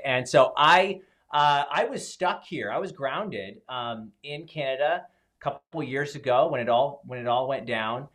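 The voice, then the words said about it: Canadian accent. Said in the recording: “I'm here in Canada. People might pick up on the accent when I say out, about, that kind of thing. It's hard to hide.”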